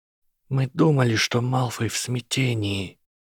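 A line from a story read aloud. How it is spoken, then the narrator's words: Old witch whispering. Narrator (Russian): прошептала старая ведьма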